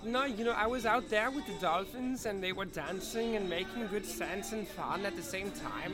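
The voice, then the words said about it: Put-on German accent. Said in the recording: “I didn't know I could do a German accent until I made fun of that guy. ... That was a good German accent”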